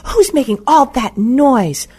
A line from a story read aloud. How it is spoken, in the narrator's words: the headmistress screamed